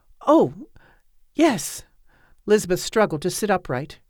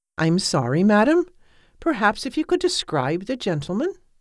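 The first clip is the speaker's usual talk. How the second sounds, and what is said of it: Polite young woman, Welsh accent. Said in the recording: “The polite voice had a Welsh accent and belonged to a girl”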